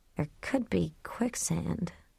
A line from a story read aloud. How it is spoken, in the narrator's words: she muttered